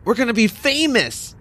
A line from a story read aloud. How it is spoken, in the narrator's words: Eugene shouted